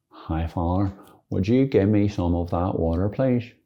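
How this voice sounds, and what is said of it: Put-on Derry accent. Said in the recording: “I think that's a Derry accent”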